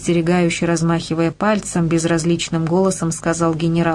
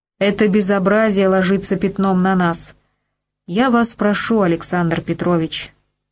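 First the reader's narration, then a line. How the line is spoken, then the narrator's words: Cold. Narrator (Russian): холодно продолжал он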